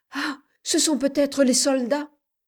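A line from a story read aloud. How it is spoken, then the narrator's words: Joyful exclamation, woman. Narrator (French): s'écria avec joie Madame de Kersin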